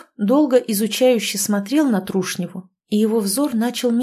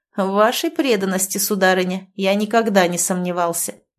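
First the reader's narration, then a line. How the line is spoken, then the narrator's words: Snide remark. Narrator (Russian): князь даже ехидно заметил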